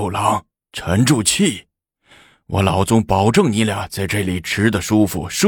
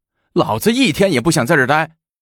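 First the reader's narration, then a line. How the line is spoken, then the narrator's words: Shouting. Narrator (Chinese): 张长宗叫道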